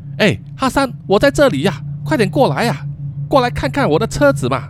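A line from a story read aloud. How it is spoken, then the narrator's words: Shouting repeatedly. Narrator (Chinese): 这样子喊了几次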